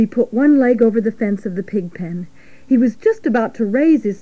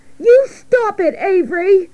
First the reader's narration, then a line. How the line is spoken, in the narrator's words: cried Fern